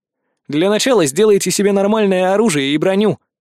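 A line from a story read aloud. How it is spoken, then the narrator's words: Smirking grunt. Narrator (Russian): хмыкнул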